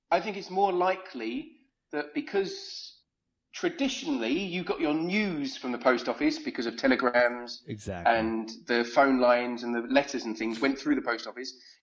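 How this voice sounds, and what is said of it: German-sounding European accent. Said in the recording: “It's the accent. We're just fascinated. ... It's the accent ... Everyone likes people from Europe because they have fun accents. ... Say something in German to us, brother.”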